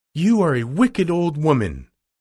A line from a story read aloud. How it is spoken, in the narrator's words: cried Dorothy